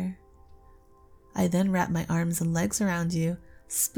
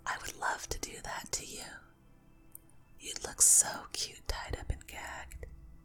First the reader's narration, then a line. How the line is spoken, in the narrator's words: whisper into your ear